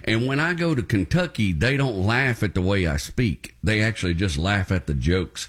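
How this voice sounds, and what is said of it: Appalachian-sounding Southern American accent. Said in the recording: “my accent is kind of Appalachian ... raised by hillbillies in East Texas ... everybody there sounds like me”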